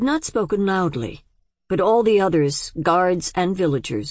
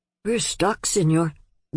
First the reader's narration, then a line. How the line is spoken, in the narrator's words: the young man said almost in a whisper